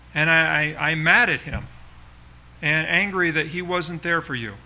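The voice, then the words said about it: Restrained angry tone. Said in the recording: “can hear it in my voice, but I'm trying not to be too angry”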